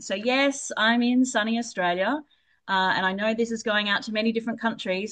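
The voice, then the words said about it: Australian accent. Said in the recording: “I do have an Aussie accent”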